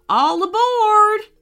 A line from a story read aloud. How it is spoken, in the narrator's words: shouted the frog